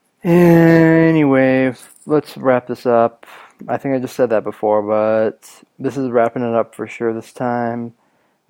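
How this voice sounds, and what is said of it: Raspy voice. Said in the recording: “my raspy voice from, excuse me, from coughing constantly”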